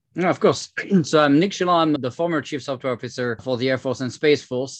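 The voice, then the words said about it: French accent. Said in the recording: “I came from France, as you can tell with my French accent”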